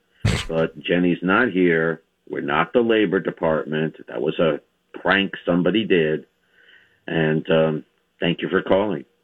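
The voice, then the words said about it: New York accent. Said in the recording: “he's got a cute little New York accent.”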